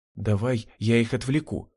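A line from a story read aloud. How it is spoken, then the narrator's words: Whisper. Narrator (Russian): прошептала Лилия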